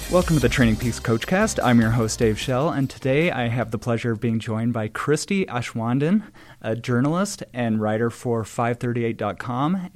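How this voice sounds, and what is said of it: Sick, unwell-sounding voice. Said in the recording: “As our listeners might be able to tell, that my voice is not my normal voice because I am on the edge of death right now.”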